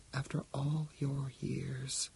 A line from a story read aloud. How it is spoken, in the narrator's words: said Lai Sing sadly